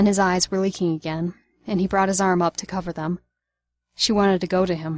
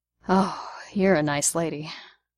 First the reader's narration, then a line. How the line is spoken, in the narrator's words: Barnes sighed